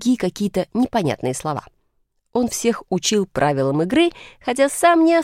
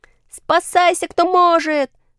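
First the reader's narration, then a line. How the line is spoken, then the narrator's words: Shouting. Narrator (Russian): закричал кто-то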